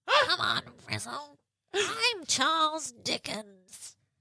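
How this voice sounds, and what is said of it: Puppet character voice. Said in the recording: “to do a Gonzo impersonation ... he doesn't really talk like that. He's more kind of like this.”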